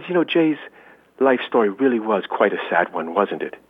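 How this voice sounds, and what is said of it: Bad imitation of someone's accent. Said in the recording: “I'm going to do a bad imitation accent”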